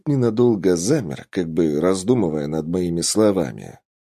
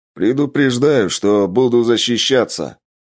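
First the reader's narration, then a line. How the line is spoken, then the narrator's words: Shouted. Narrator (Russian): Крикнул я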